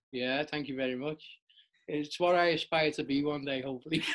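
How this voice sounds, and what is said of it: Liverpool accent. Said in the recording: “you're based in Liverpool, hence the accent, which I love.”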